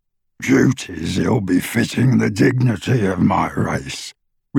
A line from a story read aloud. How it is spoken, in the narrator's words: replied the goblin, his voice rougher and less human as he said it